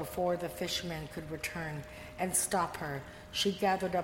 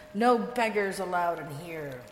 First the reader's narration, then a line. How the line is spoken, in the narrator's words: The innkeeper snapped